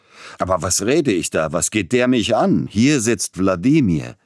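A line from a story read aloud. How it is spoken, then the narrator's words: Almost angry exclamation. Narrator (German): unterbrach Peter Iljitsch seinen galanten Redeschwall und rief beinahe zornig aus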